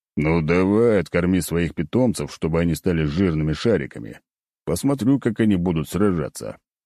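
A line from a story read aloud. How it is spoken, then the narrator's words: Snort. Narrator (Russian): хмыкнул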